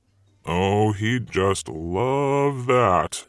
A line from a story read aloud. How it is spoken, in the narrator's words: Satan grumbled